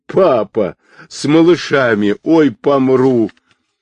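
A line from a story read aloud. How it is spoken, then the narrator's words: Bursting into laughter. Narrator (Russian): не выдержала и, прыснув, засмеялась сама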